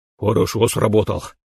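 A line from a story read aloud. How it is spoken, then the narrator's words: Gruff mutter. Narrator (Russian): буркнул младшему коллеге Фейго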